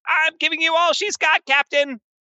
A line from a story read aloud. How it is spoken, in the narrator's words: the engineer shouts out